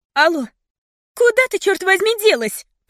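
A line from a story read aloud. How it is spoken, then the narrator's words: Shouting into phone. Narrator (Russian): прокричала Фиона в трубку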